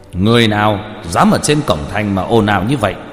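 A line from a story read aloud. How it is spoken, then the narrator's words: Loud shout from afar. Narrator (Vietnamese): một tên linh quan từ phía xa đã thấy liền lớn tiếng quát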